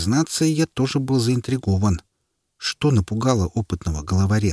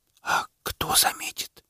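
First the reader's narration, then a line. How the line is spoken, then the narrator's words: Child's whispered question. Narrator (Russian): шепотом спросил ребенок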